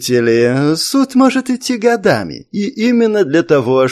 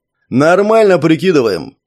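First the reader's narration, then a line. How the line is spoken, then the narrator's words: Snapping back. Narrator (Russian): огрызнулся Леха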